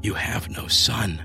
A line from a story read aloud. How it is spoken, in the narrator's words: violent surges of remembering whispered